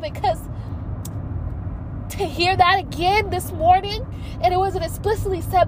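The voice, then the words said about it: Emotional, choked-up voice. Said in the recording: “I'm getting emotional right now”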